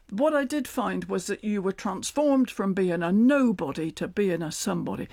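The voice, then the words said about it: Natural Cornish accent. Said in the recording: “What a wonderful accent you've learned ... Of course, it was the accent I had anyway ... set in Cornwall”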